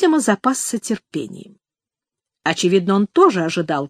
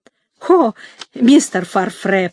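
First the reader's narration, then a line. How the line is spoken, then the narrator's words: Timid babble. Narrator (Russian): пролепетала она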